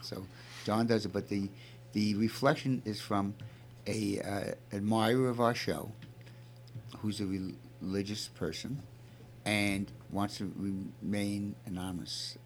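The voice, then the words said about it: Brooklyn accent. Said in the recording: “I'm from Brooklyn and I have a Brooklyn accent”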